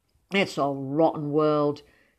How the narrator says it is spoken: he said gloomily

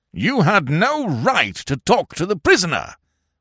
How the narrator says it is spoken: roared Colonel Warrington

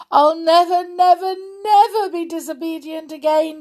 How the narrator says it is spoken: she sobbed

